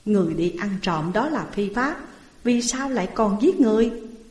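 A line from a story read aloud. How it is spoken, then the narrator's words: Plain. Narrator (Vietnamese): Bao Công hỏi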